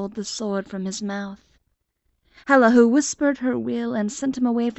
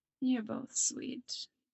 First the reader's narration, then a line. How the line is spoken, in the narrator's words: she murmurs